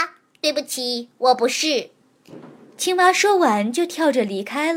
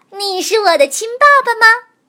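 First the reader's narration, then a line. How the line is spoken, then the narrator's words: Happy child crying out. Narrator (Chinese): 小家伙开心地叫了起来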